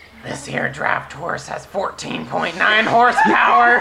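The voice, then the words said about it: Gravelly Southern character voice. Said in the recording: “Southern accent, fucking gravelly turtle voice”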